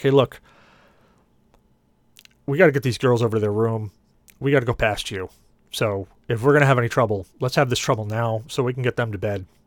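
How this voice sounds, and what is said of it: Gruff tough guy voice. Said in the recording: “in my best tough guy voice”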